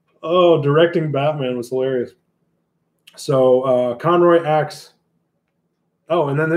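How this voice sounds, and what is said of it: Usual voice. Nothing is said of it.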